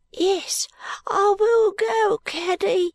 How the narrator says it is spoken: cried Peepy, who was really a good child and who was so moved by his sister's vexation

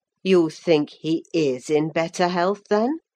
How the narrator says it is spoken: I said

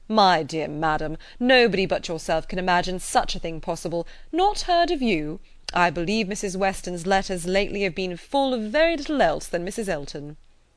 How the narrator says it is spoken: Weston, with a very good grace, immediately exclaimed

